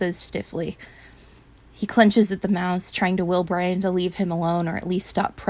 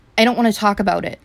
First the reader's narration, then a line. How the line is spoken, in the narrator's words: Trent says firmly